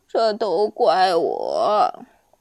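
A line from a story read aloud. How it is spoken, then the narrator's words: Old man sighing. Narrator (Chinese): 南瓜老大爷又开始叹气了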